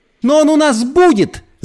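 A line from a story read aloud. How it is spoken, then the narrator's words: Angry shouting. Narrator (Russian): закричала Брит Мари, сжимая кулаки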